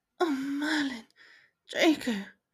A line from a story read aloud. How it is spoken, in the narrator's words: she moaned as he nibbled at her neck